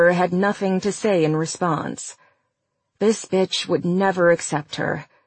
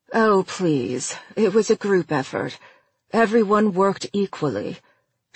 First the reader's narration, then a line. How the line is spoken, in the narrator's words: she said stiffly